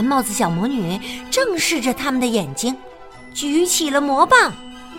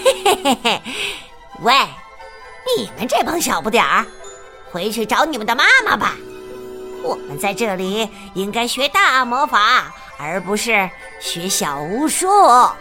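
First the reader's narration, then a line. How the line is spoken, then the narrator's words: Sneering. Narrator (Chinese): 这伙人的头冷笑道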